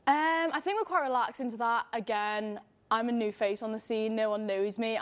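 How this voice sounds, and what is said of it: Liverpool English accent. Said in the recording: “in case people can't tell from your accent, you're not from Fresno. ... You're from Liverpool, ... England”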